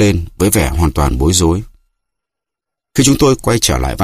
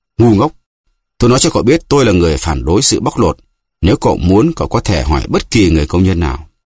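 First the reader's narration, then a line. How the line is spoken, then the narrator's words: Angry man. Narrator (Vietnamese): Ông ta tức giận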